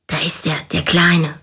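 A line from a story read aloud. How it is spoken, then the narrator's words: Whispered. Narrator (German): flüsterte Paul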